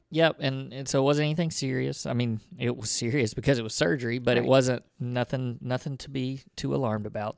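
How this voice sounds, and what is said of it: Southern US accent. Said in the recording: “our crazy Southern accents, redneck. ... accent.”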